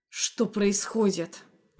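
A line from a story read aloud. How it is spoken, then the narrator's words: Vexed growl. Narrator (Russian): прорычал он с исказившимся от досады лицом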